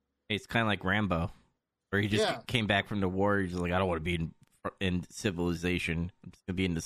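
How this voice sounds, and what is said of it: Usual voice. Nothing is said of it.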